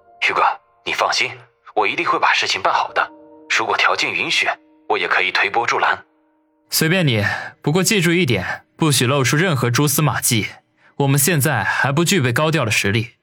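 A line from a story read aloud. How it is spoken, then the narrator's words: Composed, deep voice. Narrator (Chinese): 定了定神郑飞沉声地说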